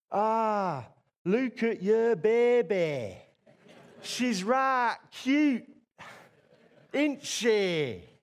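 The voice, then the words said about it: Imitates a local regional accent. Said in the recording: “With a wonderful, beautiful accent”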